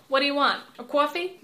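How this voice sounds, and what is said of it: Gruff New York accent. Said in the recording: “I'm not gonna do more than New York accents”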